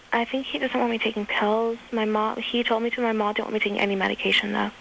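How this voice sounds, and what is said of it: Quiet, whispery, tired voice. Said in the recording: “Are you whispering ... I was sort of tired. I'll try to wake myself up.”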